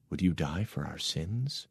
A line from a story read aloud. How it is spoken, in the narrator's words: he whispered